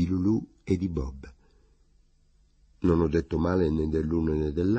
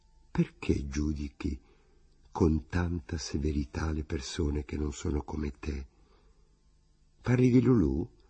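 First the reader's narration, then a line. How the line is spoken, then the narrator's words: Timid remorseful murmur. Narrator (Italian): quasi preso da rimorso, ho mormorato timidamente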